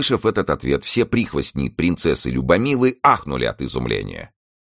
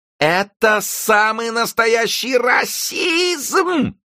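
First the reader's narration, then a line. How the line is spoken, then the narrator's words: Princess's shrill squeal. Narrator (Russian): взвизгнула принцесса Любомила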